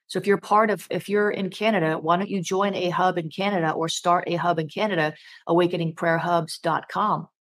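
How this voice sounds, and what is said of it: Strained, failing hoarse voice. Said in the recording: “my voice is really starting to give out ... try to restore my voice”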